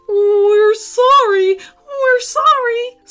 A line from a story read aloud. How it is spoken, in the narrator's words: squealed the teenagers